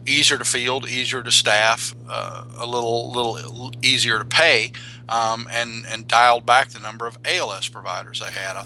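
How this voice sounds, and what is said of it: Slow speech with regional accent. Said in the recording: “coming in with that accent ... I talk slow.”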